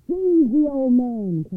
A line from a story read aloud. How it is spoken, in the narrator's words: cried the overseer